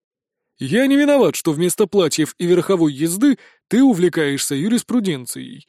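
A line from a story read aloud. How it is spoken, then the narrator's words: Laughing old man. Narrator (Russian): рассмеялся патриарх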